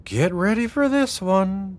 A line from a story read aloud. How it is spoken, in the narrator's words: Delilah sighed